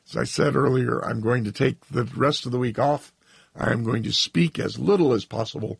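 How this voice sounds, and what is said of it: Strained, failing voice. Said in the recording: “my voice has given up finally ... this horrible malady which has afflicted me”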